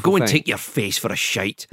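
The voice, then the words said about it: Put-on Scottish accent. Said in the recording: “It's not as good without the Scottish accent. ... See, that's so much better.”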